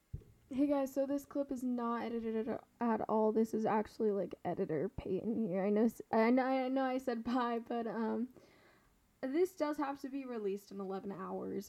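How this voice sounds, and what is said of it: Worn-out, dead-sounding voice. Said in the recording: “My voice is also absolutely dead, as you can probably hear ... I sounded dead the entire time”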